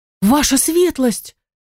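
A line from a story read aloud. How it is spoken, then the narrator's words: Frightened exclamation. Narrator (Russian): воскликнула Риола, испуганно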